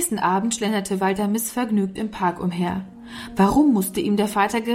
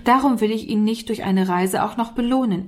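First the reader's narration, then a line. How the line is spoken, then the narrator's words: Laughing reply. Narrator (German): erwiderte Herr Fergus lachend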